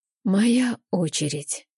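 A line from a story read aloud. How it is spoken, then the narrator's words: Hoarse. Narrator (Russian): говорю хрипло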